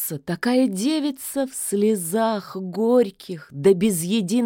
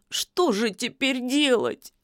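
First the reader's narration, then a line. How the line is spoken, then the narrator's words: Holding back sobs. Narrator (Russian): Василиса едва сдерживала рыдание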